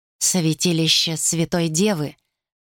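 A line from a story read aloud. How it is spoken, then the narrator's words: Muttered. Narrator (Russian): пробормотал он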